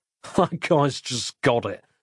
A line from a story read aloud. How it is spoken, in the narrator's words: said Nick, half-choking